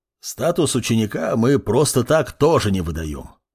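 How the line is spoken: Calmer growl, professor. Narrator (Russian): уже более спокойно прорычал профессор

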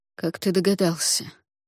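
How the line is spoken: Quiet question. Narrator (Russian): тихо спросил Юкай

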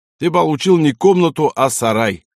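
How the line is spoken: Loud conclusion. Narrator (Russian): громко заключил Вахтанг

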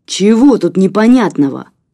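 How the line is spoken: Furious hermit's bark. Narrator (Russian): Окончательно выйдя из себя, рявкнул отшельник

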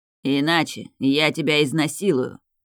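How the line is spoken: Indifferent voice. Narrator (Russian): произнес Роберт Дарион безразличным голосом

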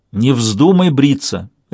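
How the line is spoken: Sharp command. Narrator (Russian): резко велел

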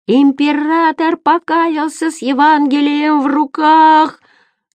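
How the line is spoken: Distant shouted news. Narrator (Russian): орали последние новости в соседнем квартале

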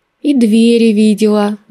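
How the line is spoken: Rueful sigh. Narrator (Russian): вздохнула я, вспомнив свое падение в озеро

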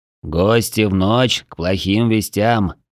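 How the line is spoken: Muffled grumble. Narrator (Russian): глухо пробурчал человек

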